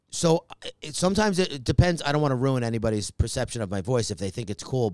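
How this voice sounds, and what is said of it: Raspy voice. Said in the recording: “rasp... you have a raspy voice. Is that just au natural?”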